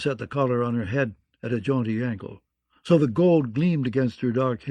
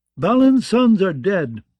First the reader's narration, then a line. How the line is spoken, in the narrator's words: cried Ralph the Limper